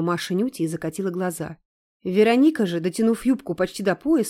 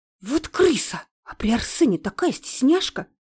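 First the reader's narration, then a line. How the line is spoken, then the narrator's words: Hiss. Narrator (Russian): прошипела Надка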